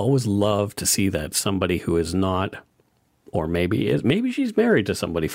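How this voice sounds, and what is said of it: Usual voice. Nothing is said of it.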